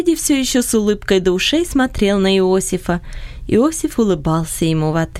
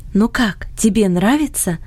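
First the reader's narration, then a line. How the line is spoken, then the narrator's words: Whispering in ear. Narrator (Russian): шепнула она на ухо Фредди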